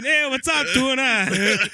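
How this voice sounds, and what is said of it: Put-on Hawaiian accent. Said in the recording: “Say it with like a Hawaiian accent.”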